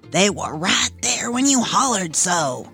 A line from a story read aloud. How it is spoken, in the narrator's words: Reese whispered back reproachfully